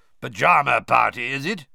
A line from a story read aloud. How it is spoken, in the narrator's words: he growled up the stairs